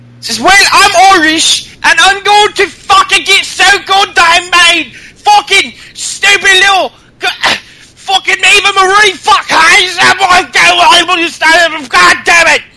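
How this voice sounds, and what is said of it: Put-on thick Irish accent. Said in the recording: “let me think of how to do an Irish accent again... She has a thick one, too.”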